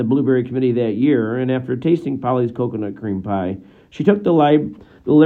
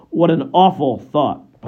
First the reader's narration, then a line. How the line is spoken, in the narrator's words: Polly exclaimed